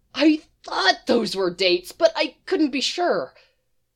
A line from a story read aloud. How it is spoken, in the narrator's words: both smiling uncontrollably, says happily